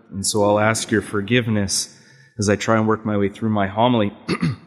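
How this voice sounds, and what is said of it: Nasal, congested voice. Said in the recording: “my nasal voice today is a result of a head cold”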